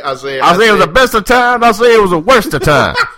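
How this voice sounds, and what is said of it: Foghorn Leghorn impression, blustery Southern drawl. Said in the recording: “I say, son, were you a foghorn leghorn there”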